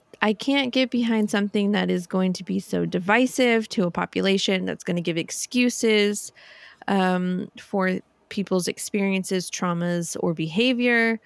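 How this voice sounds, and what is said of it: Angry, agitated voice. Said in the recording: “as you can tell in my voice, I'm very angry about it”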